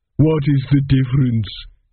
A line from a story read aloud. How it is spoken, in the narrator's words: sobbed